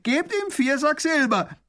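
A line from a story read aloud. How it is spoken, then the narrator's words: Prisoner calling out. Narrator (German): ruft der Gefangene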